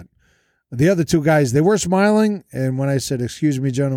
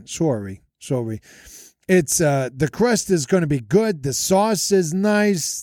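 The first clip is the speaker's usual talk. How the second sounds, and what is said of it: Thick put-on Jersey Italian accent. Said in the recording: “I lay on thick with the Italian accent. The crust is, well, it's more of a Jersey accent.”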